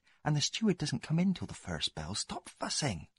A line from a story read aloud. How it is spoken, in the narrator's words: Lyra whispered back